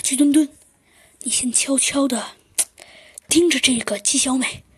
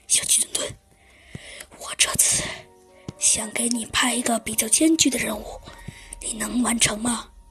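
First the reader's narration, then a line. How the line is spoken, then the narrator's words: Very quiet whisper. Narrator (Chinese): 猴子警长用特别小声的声音说道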